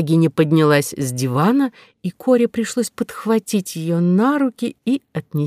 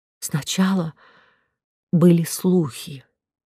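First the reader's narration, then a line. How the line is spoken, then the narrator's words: Unsteady voice. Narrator (Russian): неверным голосом произнесла герцогиня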